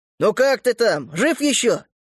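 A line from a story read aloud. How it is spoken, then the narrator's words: Cheerful shouting into phone. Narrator (Russian): весело кричит в трубку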